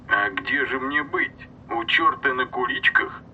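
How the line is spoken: Drawling nasal mild surprise. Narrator (Russian): В тягучем, чуть гнусавом голосе звучало легкое изумление

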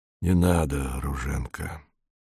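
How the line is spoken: Quiet. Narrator (Russian): сказал он тихо

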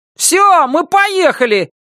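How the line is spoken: Shouted. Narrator (Russian): крикнул Норми

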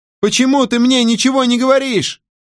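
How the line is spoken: Shouting. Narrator (Russian): кричала она

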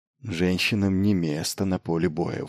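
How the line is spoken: Forced out reluctantly. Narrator (Russian): выдавила наконец

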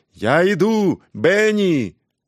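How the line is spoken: Shouting, moving away. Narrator (Russian): удаляясь по коридору, крикнул

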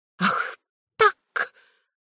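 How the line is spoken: General shrieking. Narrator (Russian): взвизгнул генерал

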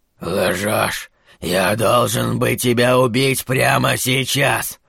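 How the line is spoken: Pained hoarse wheeze. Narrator (Russian): хрипел Кларет, словно каждый слог давался ему с болью

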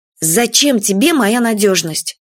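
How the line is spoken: Angry question. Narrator (Russian): Сердитым голосом спросила Юля

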